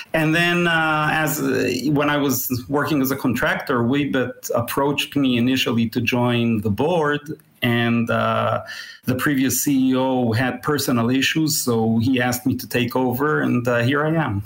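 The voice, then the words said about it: International accent, Israeli origin. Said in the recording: “you've got a fantastic international accent ... I'm at least ninth generation Israeli”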